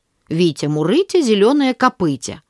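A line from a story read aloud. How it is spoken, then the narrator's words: Mocking group chant. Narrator (Russian): все начали смеяться надо мной и повторять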